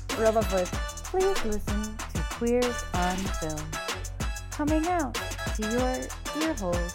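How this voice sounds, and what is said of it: Robotic voice. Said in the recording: “Robot voice.”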